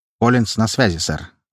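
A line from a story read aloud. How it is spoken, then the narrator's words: Plain. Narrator (Russian): ответил подчиненный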